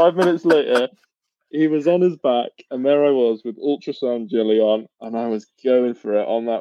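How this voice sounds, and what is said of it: Usual voice. Nothing is said of it.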